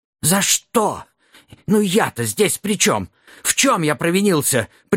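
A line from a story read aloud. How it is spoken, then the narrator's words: Habitual whining dwarf. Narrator (Russian): привычно заскулил карлик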